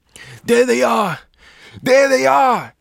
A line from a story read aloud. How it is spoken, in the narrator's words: was screaming